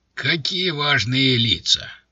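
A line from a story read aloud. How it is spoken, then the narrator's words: Booming. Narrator (Russian): прогудел он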